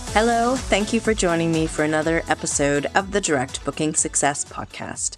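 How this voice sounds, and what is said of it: Congested, sick-sounding voice. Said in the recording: “I just have the tail end of this terrible cold, so I'm sure you can hear it in my voice”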